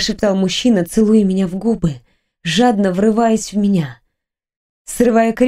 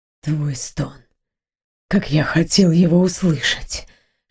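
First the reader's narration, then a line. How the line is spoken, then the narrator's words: Breaking whisper, man. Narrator (Russian): шептал мужчина срывающимся голосом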